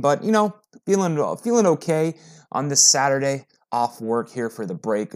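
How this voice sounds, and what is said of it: Slightly hoarse voice. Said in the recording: “I'm a little hoarse this morning”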